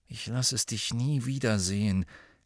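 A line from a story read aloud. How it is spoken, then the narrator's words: Quiet addition. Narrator (German): ergänzte er leise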